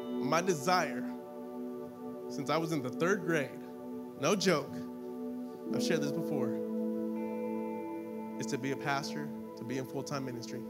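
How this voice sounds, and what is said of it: Emotional, moved speaking voice. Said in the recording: “getting emotional”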